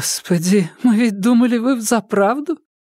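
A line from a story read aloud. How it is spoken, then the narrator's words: Breathless woman. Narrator (Russian): выдохнула женщина в цветастом шарфе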